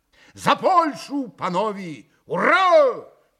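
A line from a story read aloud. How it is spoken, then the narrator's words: Shouted toast. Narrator (Russian): прокричал Митя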